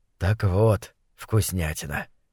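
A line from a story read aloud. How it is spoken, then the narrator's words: Soft explaining. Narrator (Russian): мягко объяснил Фасоль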